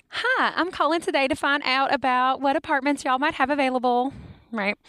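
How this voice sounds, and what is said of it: Put-on Southern American accent. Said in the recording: “the Southern voice is like”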